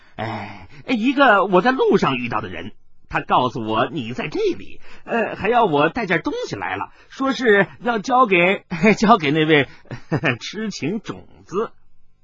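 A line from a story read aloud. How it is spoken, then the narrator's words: Child, laughing. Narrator (Chinese): 跛足童子 笑着说道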